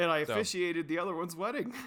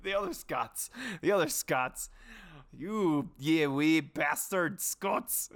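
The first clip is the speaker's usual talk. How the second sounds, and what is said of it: Put-on Scottish accent. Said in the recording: “It's funny you use that accent.”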